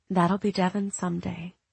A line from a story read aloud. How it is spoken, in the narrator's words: Katie whispered to Eric